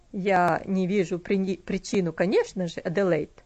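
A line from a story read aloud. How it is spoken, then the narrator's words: Dry. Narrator (Russian): сухо сказал он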